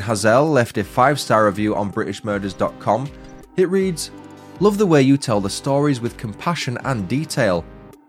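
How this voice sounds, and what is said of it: Northern English accent. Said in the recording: “As a fellow northerner, I find your accent an easy listen.”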